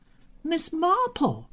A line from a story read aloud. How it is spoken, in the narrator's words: exclaimed in lively surprise